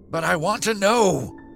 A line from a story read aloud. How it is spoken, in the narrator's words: shrieked the guide